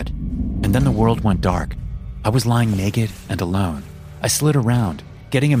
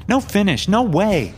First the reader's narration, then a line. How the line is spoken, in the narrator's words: I yelled